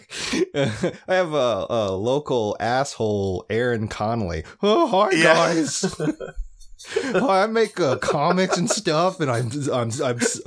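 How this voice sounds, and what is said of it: Mocking impression of a friend. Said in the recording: “do a voice for me like the whole podcast”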